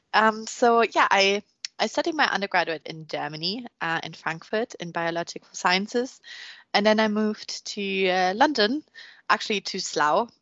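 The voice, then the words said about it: Strong German accent. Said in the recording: “I'm from Germany, as probably most can tell as well. German accents are quite strong.”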